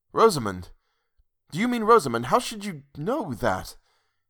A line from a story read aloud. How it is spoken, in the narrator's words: he faltered